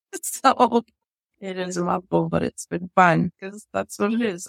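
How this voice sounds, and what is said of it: Speaker's own noticeable accent. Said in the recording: “I'm sure people thought I was saying a store called Sears and let's go have some beers because of my accent.”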